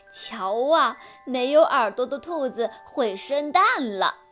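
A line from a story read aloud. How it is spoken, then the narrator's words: Mocking laughter. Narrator (Chinese): 其他兔子都笑它，说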